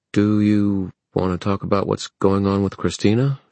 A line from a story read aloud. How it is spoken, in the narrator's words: She said hesitantly